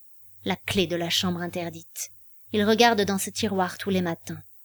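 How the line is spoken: Sharp, cutting. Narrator (French): dit-elle d'un ton tranchant

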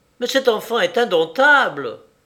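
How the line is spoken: Exclaimed. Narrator (French): s'écria mademoiselle Préfère

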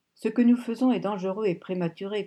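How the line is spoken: Grumbling. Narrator (French): grogna Lonsdale Crawford

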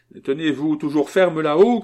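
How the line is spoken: Shouting. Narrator (French): cria-t-il

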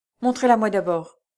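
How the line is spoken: Choked voice. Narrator (French): fit Lucien d'une voix étranglée

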